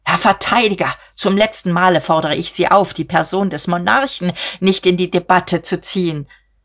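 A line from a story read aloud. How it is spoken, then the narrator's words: Predatory shriek. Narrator (German): Er kreischte beutegierig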